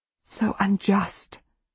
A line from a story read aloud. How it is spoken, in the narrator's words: she whispers